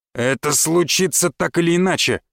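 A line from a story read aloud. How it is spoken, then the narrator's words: Barked reply. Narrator (Russian): в ответ гаркнул глава защитного порядка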